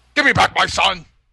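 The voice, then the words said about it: Irish accent, Liam Neeson impression. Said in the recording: “you did an Irish accent like Liam Neeson”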